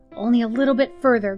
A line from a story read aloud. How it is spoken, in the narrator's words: grunted Johnson